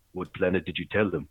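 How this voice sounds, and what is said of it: Put-on African accent. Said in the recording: “in this African accent, says”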